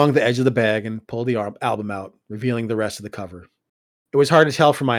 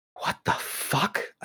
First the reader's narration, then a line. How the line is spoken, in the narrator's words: I whispered